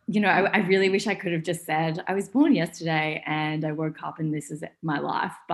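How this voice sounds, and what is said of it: Australian accent. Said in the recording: “I know that you're from Australia. Absolutely love your accent”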